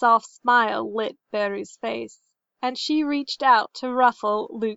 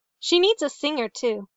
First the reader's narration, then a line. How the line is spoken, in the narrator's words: said Luke